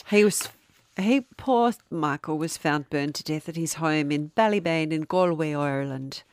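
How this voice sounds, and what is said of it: Put-on Irish accent. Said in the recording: “we've gone straight into an accent... not a bad Irish accent... It's not offensive and it's not bad.”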